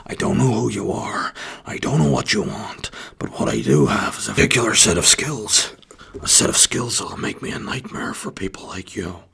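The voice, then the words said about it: Liam Neeson impression. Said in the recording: “in a kind of Liam Neeson style way. Not a bad impression. I can work on that ... Nah, could definitely do some work.”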